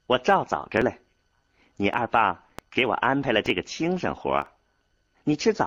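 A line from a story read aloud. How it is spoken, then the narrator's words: Cheerful, smiling. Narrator (Chinese): 彩娥并不像少安估计到的那样悲伤，他甚至对少安笑了笑说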